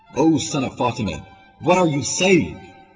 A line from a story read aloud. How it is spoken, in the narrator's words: Shem yelled